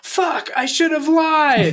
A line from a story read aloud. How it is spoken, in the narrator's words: Out of nowhere, Leslie screams